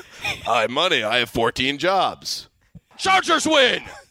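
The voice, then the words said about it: Imitates another person's voice. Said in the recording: “Is that a good impression? ... It's a good voice.”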